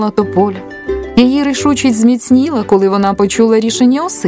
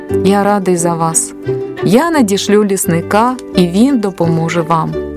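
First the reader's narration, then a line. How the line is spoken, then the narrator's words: Plain. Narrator (Ukrainian): сказав творець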